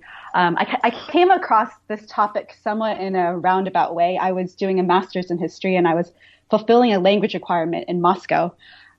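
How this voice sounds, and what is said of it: American accent, not British. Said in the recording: “as you can tell from my accent, I'm not British. I'm, I actually grew up in the States”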